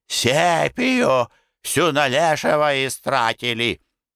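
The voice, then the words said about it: Hoarse, put-on bass voice. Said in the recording (Russian): “Передразнивая Зиновий Иванович, отвечает хриплым, деланным басом.”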